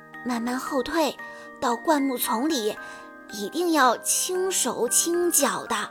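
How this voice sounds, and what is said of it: Quiet, trembling whispered line. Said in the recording (Chinese): “颤抖着嘴唇，小声地念道”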